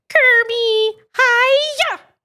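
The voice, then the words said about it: Miss Piggy impression. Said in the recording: “Miss Piggy ... That's actually pretty good.”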